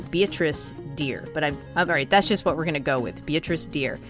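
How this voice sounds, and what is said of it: Boston accent. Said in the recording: “my Boston accent really hinders me in saying it the way that I want to”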